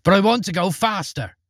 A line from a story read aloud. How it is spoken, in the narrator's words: he exclaimed